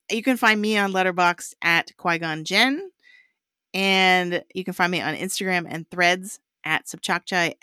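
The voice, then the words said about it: Hoarse, worn-out voice. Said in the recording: “I was teaching all day today, so my voice is apparently shot.”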